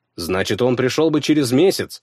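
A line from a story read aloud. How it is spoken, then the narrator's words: Snapped. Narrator (Russian): огрызнулся я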